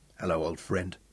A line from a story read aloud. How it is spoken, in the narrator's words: said Sean softly